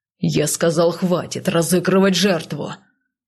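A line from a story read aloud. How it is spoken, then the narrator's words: Man's bark. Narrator (Russian): рявкнул мужчина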